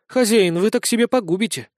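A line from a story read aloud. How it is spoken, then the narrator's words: Rueful sigh. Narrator (Russian): сокрушенно вздохнула Валанта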